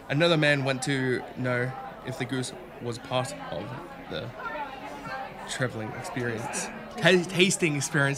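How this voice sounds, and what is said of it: Put-on accent. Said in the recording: “I don't know why I decided on this accent.”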